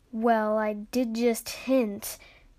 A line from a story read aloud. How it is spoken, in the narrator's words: Ash grumbled